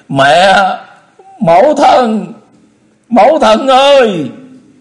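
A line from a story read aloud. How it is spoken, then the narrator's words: Loud cry. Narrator (Vietnamese): Chu Lễ lớn tiếng kêu lên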